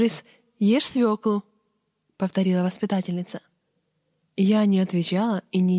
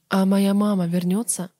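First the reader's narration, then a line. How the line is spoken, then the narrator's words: Plain. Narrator (Russian): спросила я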